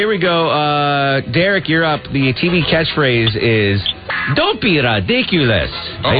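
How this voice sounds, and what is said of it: Usual voice. Nothing is said of it.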